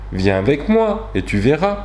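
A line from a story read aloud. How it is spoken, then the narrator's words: Plain. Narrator (French): lui répondit-elle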